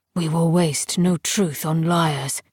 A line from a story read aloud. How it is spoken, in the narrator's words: said Silas, his voice still colourless but harder now, like water to ice, reminding, not reassuring